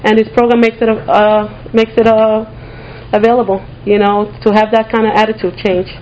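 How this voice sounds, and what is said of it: Pronounced accent, nervous speaker. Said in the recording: “I have to say I'm nervous, so hopefully I'll stop shaking and my accent will become less pronounced.”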